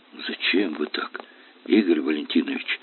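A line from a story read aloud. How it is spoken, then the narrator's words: Quiet. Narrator (Russian): Тихо произнесла она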